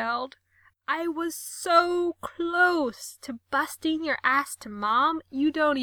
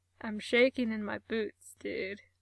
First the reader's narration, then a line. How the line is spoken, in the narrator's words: Mikey called back, and his voice sounded really weird through the door